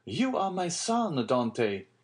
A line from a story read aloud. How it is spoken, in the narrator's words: exclaimed the old man